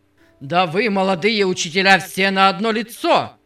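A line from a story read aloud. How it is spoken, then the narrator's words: Roared. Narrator (Russian): Взревел господин Паркер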